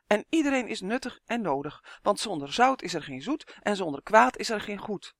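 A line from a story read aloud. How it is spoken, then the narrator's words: Quick call. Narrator (Dutch): riep vlug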